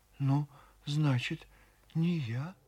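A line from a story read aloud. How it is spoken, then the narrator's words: Quiet, distraught old woman. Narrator (Russian): Старушка сама не своя тихо сказала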